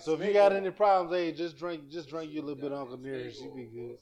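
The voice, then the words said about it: Southern drawl. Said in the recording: “my southern drawl came out again”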